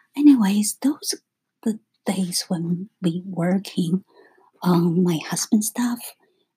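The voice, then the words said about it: Quiet, low-volume voice. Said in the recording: “That's why my voice is a little bit low.”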